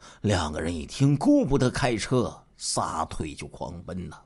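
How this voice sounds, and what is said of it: Usual voice. Nothing is said of it.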